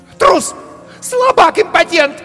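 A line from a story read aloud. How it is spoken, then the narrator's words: Shrieking. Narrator (Russian): завизжала она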